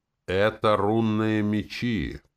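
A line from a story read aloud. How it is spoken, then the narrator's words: Solemn. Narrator (Russian): торжественно ответила танк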